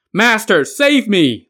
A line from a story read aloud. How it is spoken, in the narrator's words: Li Jing shouted